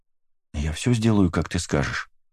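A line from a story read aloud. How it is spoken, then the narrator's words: Plain. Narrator (Russian): ответил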